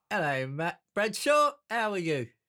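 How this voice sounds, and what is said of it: Put-on Cockney accent. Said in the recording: “your Cockney accent's far more impressive than his was.”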